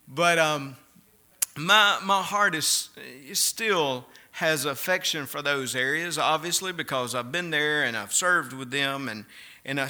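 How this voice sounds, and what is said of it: Mississippi Southern accent. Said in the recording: “they enjoy hearing my Mississippi accent every Sunday morning ... I like that Mississippi accent ... I think it's a pretty good accent.”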